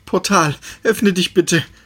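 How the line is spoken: Pleading. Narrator (German): flehte Perry

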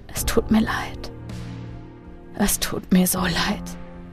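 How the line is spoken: Remorseful whisper. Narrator (German): flüsterte er

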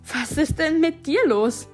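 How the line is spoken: Aghast exclamation. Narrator (German): rief sie entgeistert

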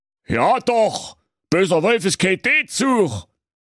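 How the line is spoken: Wolf calling out. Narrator (German): Der Wolf rief

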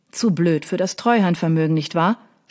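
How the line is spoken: Mocking. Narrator (German): spottete er

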